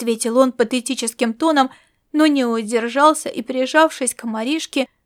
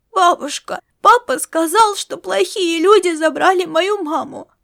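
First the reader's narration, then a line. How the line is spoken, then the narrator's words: Speaking through tears. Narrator (Russian): проговорил он сквозь слезы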